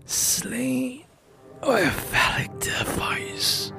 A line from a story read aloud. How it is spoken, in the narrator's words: chuckled